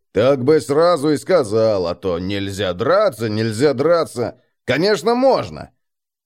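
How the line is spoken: Long grumbling. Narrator (Russian): На что Эрих долго бурчал что-то вроде

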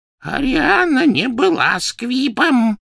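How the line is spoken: Hoarse wheeze. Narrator (Russian): прохрипел Дож

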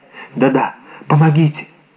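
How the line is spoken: Whisper. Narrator (Russian): прошептала госпожа Бонасье

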